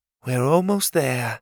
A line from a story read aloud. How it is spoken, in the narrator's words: she sighed